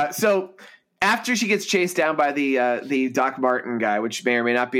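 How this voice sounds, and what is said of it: Usual voice. Nothing is said of it.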